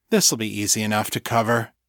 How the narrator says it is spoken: he said, continuing in a lighter tone

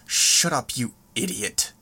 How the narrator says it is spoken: Seder snarled the words

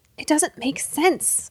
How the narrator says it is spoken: Elijah muttered

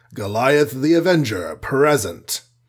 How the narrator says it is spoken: his voice had gone down several tones to a deep rumble as he boomed

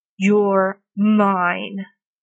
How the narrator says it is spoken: Arthur growls furiously into his throat

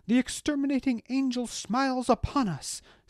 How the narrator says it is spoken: cried from the crowd

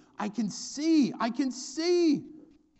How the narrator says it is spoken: Once he's healed, this guy runs home exclaiming

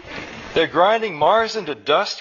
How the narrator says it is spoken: cried Nectar

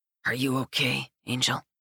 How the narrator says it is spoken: murmurs

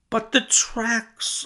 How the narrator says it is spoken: I cried

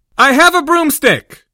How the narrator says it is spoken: Harry said as loudly as he could manage with his throat still hurting

